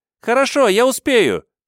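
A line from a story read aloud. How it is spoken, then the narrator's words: Squeaky girl's voice. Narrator (Russian): пискнула девочка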